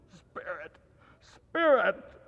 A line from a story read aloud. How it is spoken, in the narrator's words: he cried